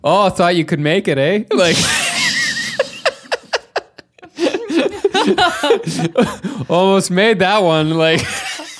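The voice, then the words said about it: Exaggerated Canadian accent. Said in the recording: “a more Canadian accent”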